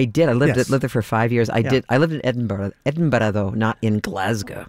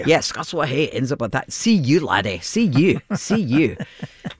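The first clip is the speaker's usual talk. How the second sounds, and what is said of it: Put-on Scottish accent. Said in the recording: “you come by that accent authentically as you worked in Scotland”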